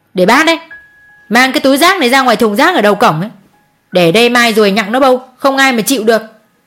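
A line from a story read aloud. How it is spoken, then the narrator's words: Shout. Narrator (Vietnamese): cô Hường quát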